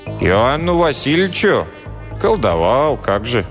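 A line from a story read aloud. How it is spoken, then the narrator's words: Calm. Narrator (Russian): спокойно сообщил Найдак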